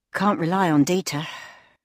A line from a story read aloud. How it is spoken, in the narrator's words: she sighed